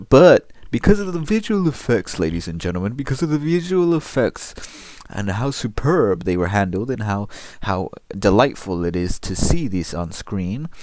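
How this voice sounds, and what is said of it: Mock film critic voice. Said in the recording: “I'm doing my critic voice.”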